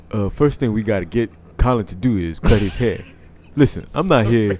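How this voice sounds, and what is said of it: Imitates another person's voice. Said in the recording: “Can you read it in a Michael Vick voice? ... he doesn't sound like that.”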